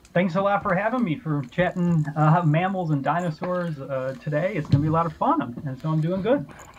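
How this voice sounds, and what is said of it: Midwestern American accent. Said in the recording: “it sounds pretty Midwestern”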